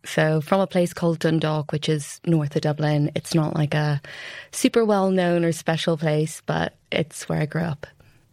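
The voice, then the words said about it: Irish accent. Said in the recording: “If you haven't guessed from the accent, I'm Irish.”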